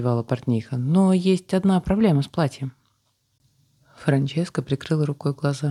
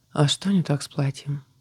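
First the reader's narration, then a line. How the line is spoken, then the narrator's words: Tired sigh. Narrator (Russian): устало вздохнула спрашивающая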